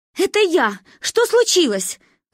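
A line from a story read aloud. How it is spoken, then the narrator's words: Shouted. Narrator (Russian): выкрикнула мама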